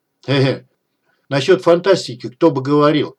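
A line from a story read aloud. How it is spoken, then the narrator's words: Chuckling. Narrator (Russian): хохотнул Дегтярь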